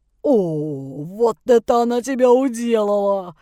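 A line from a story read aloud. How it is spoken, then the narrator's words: Drawled. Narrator (Russian): протянул неугомонный Рыжий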